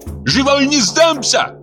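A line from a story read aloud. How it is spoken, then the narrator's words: Defiant shout. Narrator (Russian): закричала Зугза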